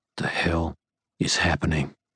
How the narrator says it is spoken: Rollins asked me, intently under his breath once we were out of earshot

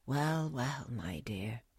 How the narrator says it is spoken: said her father with a quiet laugh

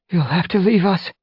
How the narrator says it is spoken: Mistyfoot gasped

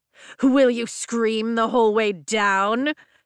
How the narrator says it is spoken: Jack mocks, still shouting, but his voice is closer

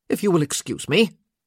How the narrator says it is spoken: he said sharply

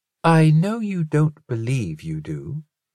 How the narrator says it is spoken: Arthur said quietly

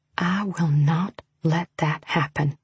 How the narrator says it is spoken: I whispered, for his ears only

